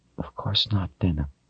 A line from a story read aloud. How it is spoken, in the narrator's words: said in a low voice